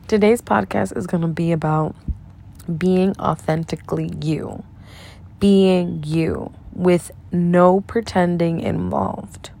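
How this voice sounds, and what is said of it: Dry, slightly raspy voice. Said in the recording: “my voice is a little dried up ... you get a little raspy. Well, I get a little raspy”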